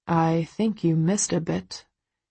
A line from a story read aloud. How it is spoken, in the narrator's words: he mutters